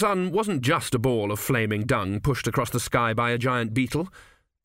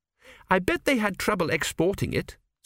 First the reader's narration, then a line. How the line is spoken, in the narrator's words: said Petrachi firmly